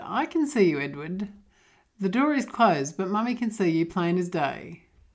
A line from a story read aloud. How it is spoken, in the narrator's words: I chuckled as I was sitting there and said